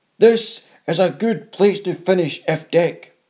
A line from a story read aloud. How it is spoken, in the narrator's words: roared